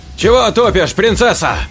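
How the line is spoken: Agitated shout. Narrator (Russian): психуя, выкрикнул я

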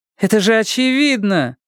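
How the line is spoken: Interrupting, almost laughing. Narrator (Russian): вмешалась Буря, чуть не смеясь

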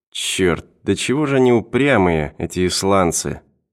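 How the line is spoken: Grumbling. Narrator (Russian): проворчал Дрейк

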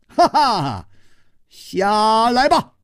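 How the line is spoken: Laughing scolding. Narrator (Chinese): 楚留香…他笑斥道

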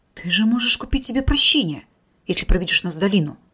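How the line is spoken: Stunned mutter. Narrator (Russian): ошарашенно пробормотал Тесар

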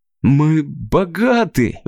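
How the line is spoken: Breathless, then laughing. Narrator (Russian): выдохнул Крис и засмеялся

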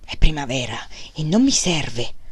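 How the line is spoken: Murmured. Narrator (Italian): mormorò

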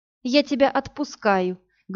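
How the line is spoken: Sad, smiling. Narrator (Russian): грустно улыбнулась Иви

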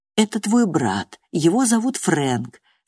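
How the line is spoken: Soft. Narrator (Russian): сказал он мягко

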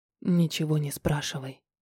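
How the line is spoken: Whisper. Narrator (Russian): шепнул

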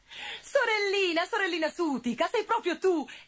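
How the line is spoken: Exclaiming. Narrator (Italian): esclamò Gobbolino

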